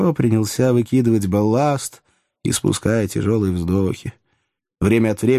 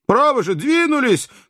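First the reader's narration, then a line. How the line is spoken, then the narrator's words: Shout. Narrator (Russian): крикнул он наконец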